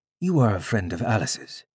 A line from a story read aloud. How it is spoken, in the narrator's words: he said